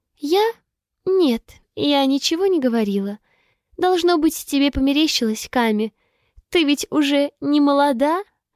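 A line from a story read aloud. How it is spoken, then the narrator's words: Nasty smirking. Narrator (Russian): Она гаденько ухмыляется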